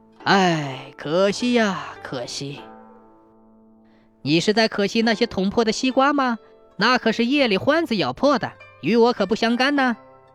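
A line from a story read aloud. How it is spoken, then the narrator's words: Sighing. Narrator (Chinese): 王老头叹道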